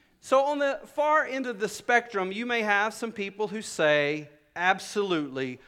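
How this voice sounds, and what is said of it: Usual voice. Nothing is said of it.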